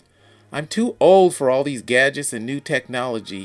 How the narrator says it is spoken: he exclaims

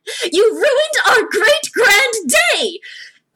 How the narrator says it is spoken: yell at him

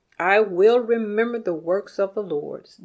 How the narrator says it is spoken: David said

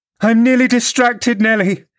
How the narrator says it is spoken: she exclaimed

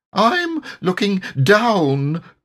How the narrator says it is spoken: cried Piglet loudly

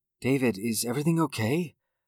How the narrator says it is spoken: Sarah asked softly

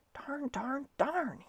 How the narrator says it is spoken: he muttered

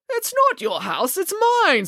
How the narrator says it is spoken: spluttered Mr

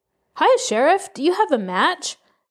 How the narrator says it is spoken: shouted Homer

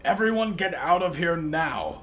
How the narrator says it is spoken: Hector roared

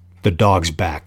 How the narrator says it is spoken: said Quill

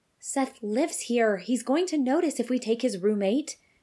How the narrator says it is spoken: Ashlia said

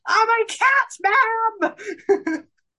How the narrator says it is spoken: screaming

